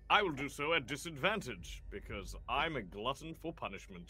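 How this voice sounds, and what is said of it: Announcer voice. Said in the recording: “On voice. I like that voice. ... this is my announcer voice.”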